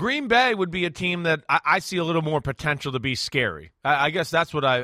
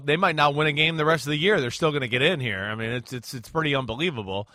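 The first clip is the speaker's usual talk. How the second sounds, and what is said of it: Mildly sarcastic tone. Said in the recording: “I'm being sarcastic a little bit there”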